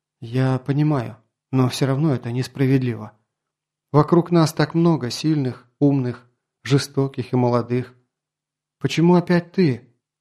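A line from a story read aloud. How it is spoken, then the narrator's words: Sighing. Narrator (Russian): Грон вздохнул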